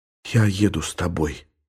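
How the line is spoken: Whisper. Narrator (Russian): шепнула Елена

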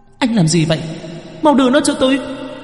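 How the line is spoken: Sudden shriek. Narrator (Vietnamese): Cô gái bỗng nhiên rít lên

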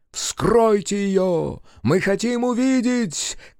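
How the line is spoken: Crowd shouting. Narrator (Russian): кричали собравшиеся

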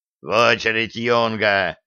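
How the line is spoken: Dwarf growling. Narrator (Russian): рыкнул гном

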